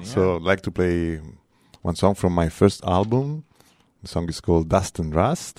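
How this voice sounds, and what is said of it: Speaks with a foreign accent. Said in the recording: “I love that accent.”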